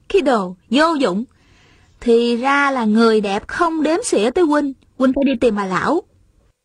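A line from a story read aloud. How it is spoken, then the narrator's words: Smiling, teasing. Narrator (Vietnamese): Thanh Thanh mỉm cười nói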